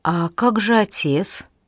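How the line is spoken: Timid question. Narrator (Russian): робко спросил Том

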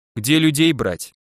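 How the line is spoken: Sighing. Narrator (Russian): вздохнул Жека

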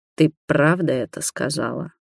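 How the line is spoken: Rasped. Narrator (Russian): прохрипел

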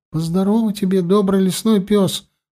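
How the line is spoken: Babbling timidly. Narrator (Russian): пролепетал Мозайка

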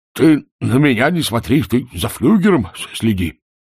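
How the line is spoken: Groaning sergeant. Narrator (Russian): простонал сержант

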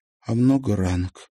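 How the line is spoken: Quiet question. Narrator (Russian): спросила Марьяна тихо

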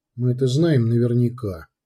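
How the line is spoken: Very quiet. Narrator (Russian): И очень тихо добавил

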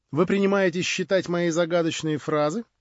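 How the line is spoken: Laughing. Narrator (Russian): засмеялась она

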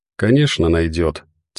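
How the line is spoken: Quiet. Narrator (Russian): тихо произнесла она

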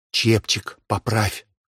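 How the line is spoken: Whispered advice. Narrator (Russian): шепотом посоветовала служанке Вика

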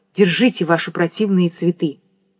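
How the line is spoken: Whispered in one breath. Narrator (Russian): Ирина одним духом прошептала

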